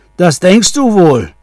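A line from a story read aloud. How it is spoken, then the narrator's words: Troll shouting. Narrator (German): schrie der Troll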